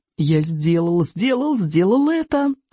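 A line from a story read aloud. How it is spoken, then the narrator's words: Joyful inner singing. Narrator (Russian): радостно запел про себя Икинг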